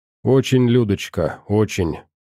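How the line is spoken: Sighing. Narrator (Russian): я вздохнул

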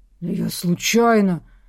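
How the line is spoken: Muttered. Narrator (Russian): Пробормотал Берский

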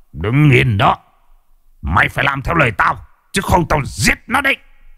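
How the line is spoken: Menacing growl. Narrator (Vietnamese): Mò Phò gằn giọng

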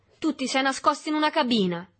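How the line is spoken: Violent shout. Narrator (Italian): gridò con violenza Berto

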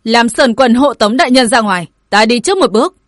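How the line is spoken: Shouting. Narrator (Vietnamese): Ê quát

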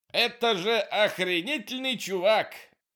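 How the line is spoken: Shouted. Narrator (Russian): выкрикнул он

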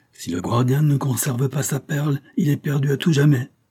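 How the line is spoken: Yelling. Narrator (French): hurlait Katie Fley

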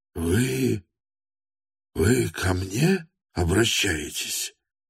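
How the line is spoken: Mournful surprised mutter. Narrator (Russian): С прискорбным удивлением пробормотал Степан Трофимович

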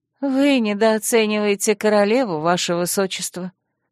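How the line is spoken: Polite and sad. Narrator (Russian): учтиво и печально произнесла Альми

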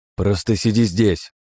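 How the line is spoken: Barking. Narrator (Russian): рявкнул

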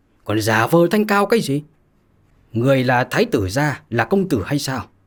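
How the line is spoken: Angry. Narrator (Vietnamese): Lục Đại Hải tức giận mà nói

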